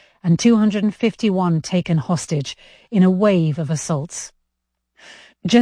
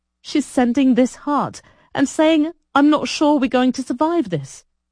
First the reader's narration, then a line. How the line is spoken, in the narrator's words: Ido sobbed